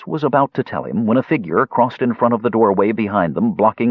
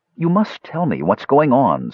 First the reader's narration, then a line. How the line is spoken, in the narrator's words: Skowar pleaded